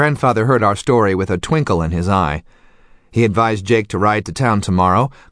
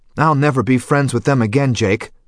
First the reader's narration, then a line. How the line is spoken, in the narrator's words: I declared hotly